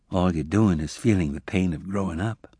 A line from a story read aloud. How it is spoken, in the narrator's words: Emma said gently